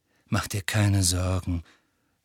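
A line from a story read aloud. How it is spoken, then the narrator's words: Plain. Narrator (German): sagte Sirius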